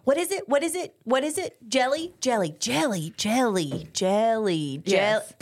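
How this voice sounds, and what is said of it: Imitates another person's voice. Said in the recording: “my impression of Mama Joy playing this game”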